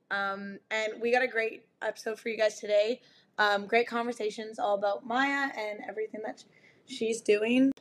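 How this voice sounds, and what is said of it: Hoarse, raspy strained voice. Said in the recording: “If I sound like I smoked 60 cigarettes a day ... screamed my lungs off ... so I apologize for my voice”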